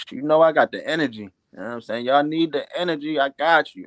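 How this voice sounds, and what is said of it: Baltimore accent. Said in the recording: “that's that Baltimore accent”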